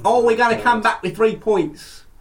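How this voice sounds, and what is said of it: Put-on accent. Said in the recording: “Don't know what that accent was.”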